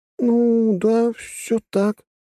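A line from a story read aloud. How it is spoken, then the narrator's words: Muffled reply from embrace. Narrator (Russian): глухо отозвалась Трасси из глубин его объятий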